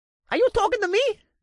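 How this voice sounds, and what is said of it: High-pitched bird character voice. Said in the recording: “he asked with a high-pitched voice”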